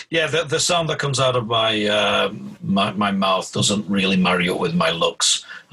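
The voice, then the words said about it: British accent. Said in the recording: “also a fellow Brit, so it's great to hear an accent that I recognize.”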